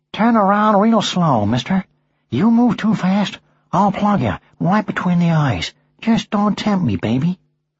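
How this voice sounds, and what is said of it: Humphrey Bogart impression. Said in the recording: “put on his Humphrey Bogart voice”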